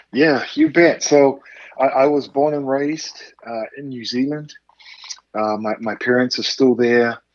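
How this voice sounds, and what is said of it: Maori New Zealand accent. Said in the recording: “your cool accent, man. Tell us about your Maori roots”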